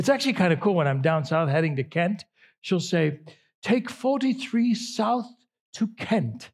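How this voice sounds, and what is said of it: Usual voice. Nothing is said of it.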